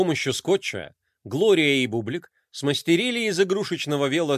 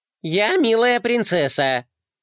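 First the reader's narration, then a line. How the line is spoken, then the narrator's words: Deliberately high-pitched. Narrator (Russian): сказал Флай нарочито высоким голосом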